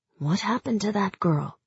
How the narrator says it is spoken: said quietly

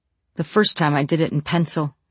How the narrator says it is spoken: he says

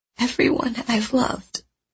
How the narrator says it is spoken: I whisper

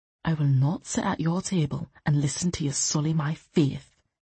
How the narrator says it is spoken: Loth said quietly

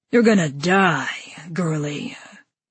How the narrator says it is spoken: he growled, voice thick with malevolence

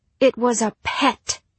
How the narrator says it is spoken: snapped the girl

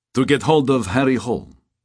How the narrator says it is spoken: he said

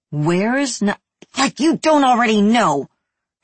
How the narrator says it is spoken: Harris said through clenched teeth

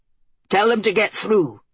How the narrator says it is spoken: Tyr shouted from the prow

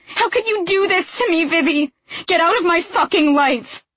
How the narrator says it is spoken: her face contorts as she screams

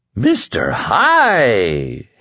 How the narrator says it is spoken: Hector Drogon was giggling

